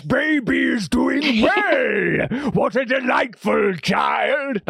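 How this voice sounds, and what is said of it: Bane villain character voice. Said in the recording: “my Bane impression.”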